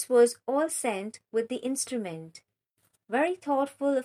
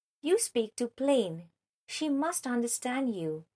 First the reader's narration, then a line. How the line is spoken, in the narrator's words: Emma took the opportunity of whispering